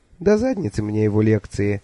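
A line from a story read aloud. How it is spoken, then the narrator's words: Sighing. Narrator (Russian): вздохнула Миламори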